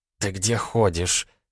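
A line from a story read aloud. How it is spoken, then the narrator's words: Hissed. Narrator (Russian): прошипела она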